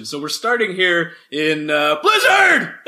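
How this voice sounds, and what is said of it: Sudden loud yell. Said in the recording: “I'm yelling ... You just scared me both times, genuinely.”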